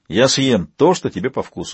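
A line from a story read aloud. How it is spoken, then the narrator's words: Plain. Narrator (Russian): сказал Вейл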